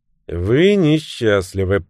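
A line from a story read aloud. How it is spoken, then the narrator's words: Cheerful, somewhat indifferent voice. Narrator (Russian): произнес мужчина веселым и где-то даже равнодушным голосом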